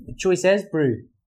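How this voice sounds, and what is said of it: Attempted New Zealand Kiwi accent. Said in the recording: “Kiwi accent. Can you do the Kiwi accent?”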